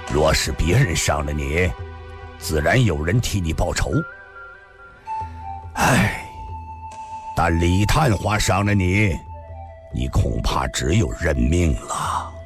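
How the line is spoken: Cold sneer. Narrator (Chinese): 秦孝义冷冷的一笑说道

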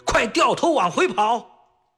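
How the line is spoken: Shouting. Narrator (Chinese): 万能脚冲车把式高喊

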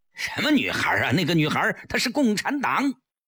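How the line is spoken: Roaring. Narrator (Chinese): 江世飞吼道

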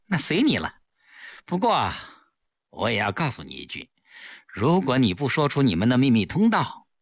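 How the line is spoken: Smiling. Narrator (Chinese): 顾青依然笑着

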